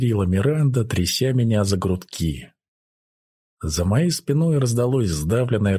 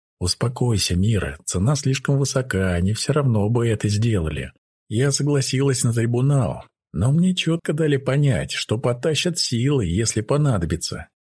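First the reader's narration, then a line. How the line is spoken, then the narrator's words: Quiet speech. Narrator (Russian): тихо сказала я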